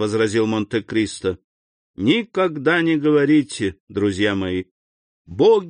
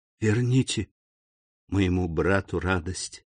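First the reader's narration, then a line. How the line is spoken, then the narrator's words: Whispered in ear. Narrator (Russian): шепнула Жюли на ухо графу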